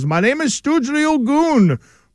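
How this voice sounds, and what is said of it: Put-on foreign accent. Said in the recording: “you can envision the accent”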